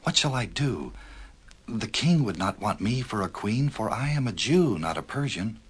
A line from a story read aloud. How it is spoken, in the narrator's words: whispered Esther